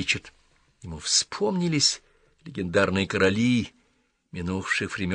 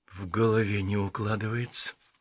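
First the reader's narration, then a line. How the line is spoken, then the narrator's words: Muttered. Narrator (Russian): пробормотал Ричард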